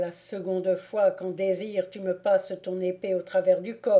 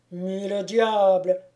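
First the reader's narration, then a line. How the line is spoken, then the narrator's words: Furious exclamation. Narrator (French): s'écria le baron hors de lui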